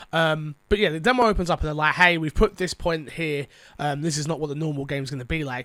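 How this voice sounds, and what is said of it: Sick, weird-sounding voice. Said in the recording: “I'm sick, by the way. So if you think my voice is weird or something like that, I am.”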